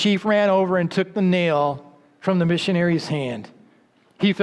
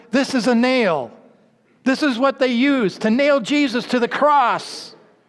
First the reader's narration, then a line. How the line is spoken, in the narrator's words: shouted